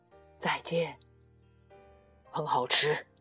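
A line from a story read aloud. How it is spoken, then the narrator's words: Soft. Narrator (Chinese): 他轻声说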